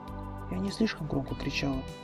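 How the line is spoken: Whispered. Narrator (Russian): прошептала

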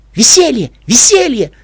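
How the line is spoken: Joyful shout. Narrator (Russian): радостно прокричала Пинки Пай

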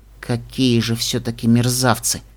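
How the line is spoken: Through gritted teeth. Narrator (Russian): процедила сквозь зубы единорожка

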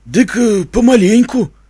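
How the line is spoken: Hesitant, frightened drawl. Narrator (Russian): неуверенно протянул староста, с испугом

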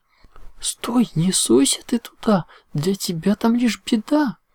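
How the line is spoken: Alarmed warning exclamation. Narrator (Russian): воскликнула Зикора, когда мах сунул любопытный нос в густо парящий котел

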